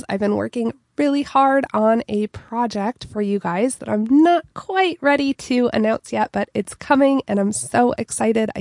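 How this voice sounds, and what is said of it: Congested, stuffed-up voice. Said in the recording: “I sound a little stuffed up. ... I have been battling a cold”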